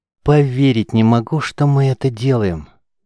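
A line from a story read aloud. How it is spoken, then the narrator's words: Continuous grumbling. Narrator (Russian): не переставал ворчать Соток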